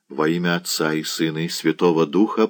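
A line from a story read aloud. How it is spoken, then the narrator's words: Whispered. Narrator (Russian): прошептал Редзян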